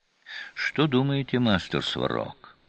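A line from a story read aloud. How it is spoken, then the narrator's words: Quiet question. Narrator (Russian): негромко спросил Гор Рошаль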